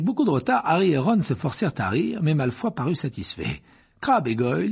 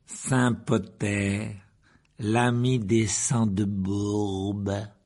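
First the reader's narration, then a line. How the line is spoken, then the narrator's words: Slow, drawn-out. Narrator (French): dit lentement Malfoy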